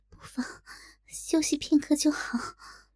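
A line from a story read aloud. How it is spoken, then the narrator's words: Soft voice. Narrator (Chinese): 小龙女 轻声道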